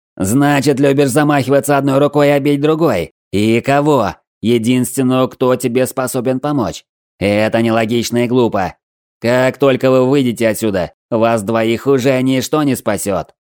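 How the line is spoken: Yelling general. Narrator (Russian): орал нам вслед генерал

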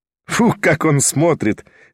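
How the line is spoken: Triumphant merry laughter. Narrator (Russian): весело рассмеялась торжествующая Арина Прохоровна

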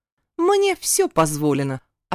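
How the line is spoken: Snapping. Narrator (Russian): огрызнулась Латифа

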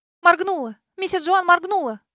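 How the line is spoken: Joyful exclamation. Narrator (Russian): Обрадованно воскликнула Санди

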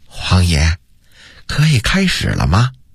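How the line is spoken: Soft whispered question. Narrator (Chinese): 他凑到永乐帝的耳边轻声问道

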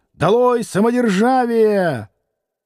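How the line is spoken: Two voices shouting together. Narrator (Russian): Двое студентов закричали в один голос

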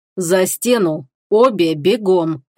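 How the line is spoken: Clipped, every word stressed. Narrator (Russian): отчеканил каждое слово Фенрис

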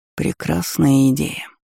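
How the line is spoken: Whisper. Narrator (Russian): прошептал искуситель

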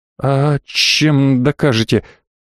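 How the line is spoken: Slightly stammering question. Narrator (Russian): слегка заикаясь, спросила девушка

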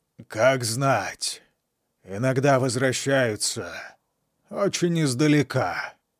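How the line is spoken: Defiant grumble. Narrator (Russian): проворчал Колвилл, бравируя даже перед смертью

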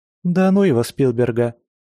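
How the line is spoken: Cheerful reply. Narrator (Russian): весело ответила Инна

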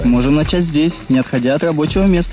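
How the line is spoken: Laughing. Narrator (Russian): смеялась

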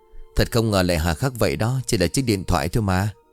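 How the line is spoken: Sighing. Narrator (Vietnamese): Long thở dài

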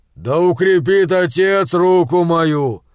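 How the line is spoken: Loud. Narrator (Russian): громко произнес боярин

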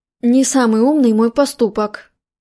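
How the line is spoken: Mumbled. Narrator (Russian): промямлил Маркби

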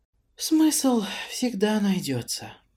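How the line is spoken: Tired sigh. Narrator (Russian): устало вздохнув, сказала мне Лара

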